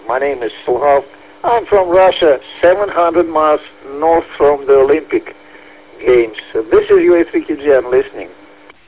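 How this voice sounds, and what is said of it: Hoarse, strained, fading voice. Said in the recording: “Sorry for my voice. I'm a bit losing my voice,”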